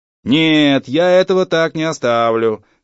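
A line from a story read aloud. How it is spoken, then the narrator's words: Shouting over machine noise. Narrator (Russian): кричал он в отделе, заглушая шум машинки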